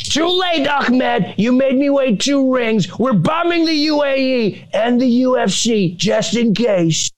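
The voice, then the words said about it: Imitates another person's voice. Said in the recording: “pretty good Trump impression”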